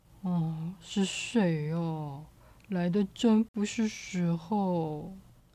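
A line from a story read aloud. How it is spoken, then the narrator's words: Impatient muttering. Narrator (Chinese): 他很不耐烦的嘀嘀咕咕的说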